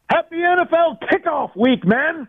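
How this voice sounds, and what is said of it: Loud, excited shouting voice. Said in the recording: “Sorry to be shouting in your ears, but I'm a little excited, if you can't tell. ... I can hear it in your voice.”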